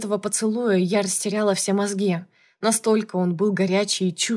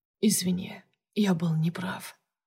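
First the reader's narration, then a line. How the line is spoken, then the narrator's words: Whisper. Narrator (Russian): прошептал он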